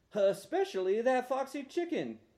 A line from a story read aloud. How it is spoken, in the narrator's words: Danny Nelson cried over the phone, hee-hawing